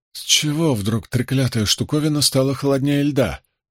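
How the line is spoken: Muttering. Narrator (Russian): пробормотал он

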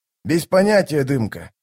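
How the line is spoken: Sighing. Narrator (Russian): вздохнул Штырь

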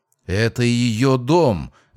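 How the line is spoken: Angry exclamation. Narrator (Russian): с гневом воскликнула Дайра

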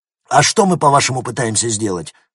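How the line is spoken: Angry question. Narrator (Russian): зло спросил один из офицеров

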